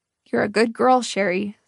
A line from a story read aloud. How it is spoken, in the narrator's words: said, his voice wavering